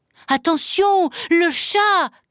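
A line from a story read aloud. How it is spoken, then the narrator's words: Shouted. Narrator (French): cria-t-il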